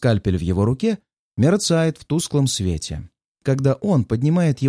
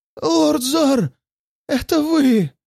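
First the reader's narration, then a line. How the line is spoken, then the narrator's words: Weak hoarse chorus. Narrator (Russian): Хрипят они в унисон, едва поднимая головы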